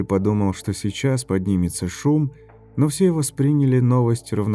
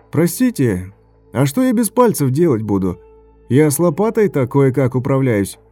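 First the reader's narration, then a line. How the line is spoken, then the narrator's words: Shout. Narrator (Russian): крикнул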